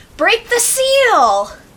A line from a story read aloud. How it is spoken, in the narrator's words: Natalie's in shock, and all she can shout is